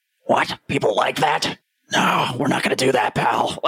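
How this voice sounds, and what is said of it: Imitates another person's voice. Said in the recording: “That impression was spot on. That was fantastic.”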